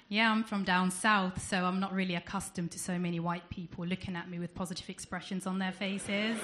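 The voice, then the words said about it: Southern accent. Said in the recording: “as I'm sure some of you can tell by my accent, I'm not from around here, I'm from down south.”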